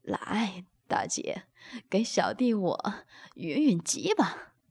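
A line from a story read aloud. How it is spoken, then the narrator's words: Laughing. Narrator (Chinese): 宋明笑道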